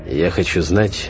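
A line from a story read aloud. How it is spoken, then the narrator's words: Tense voice. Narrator (Russian): сказал я напряженным голосом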